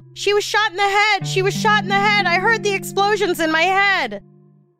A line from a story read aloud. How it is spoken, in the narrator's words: she woke up and yelled